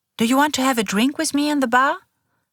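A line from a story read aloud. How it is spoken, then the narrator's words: Cheerful woman asking. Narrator (German): fragt sie fröhlich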